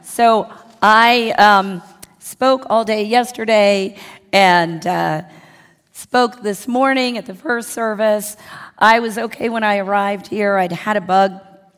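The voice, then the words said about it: Hoarse, worn-out voice. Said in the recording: “yesterday lost my voice”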